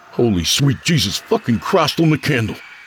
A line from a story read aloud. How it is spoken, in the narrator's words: barked Creed